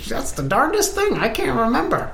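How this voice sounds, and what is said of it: Goblin prospector character voice. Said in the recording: “goblin prospector based on the pickaxe and accent”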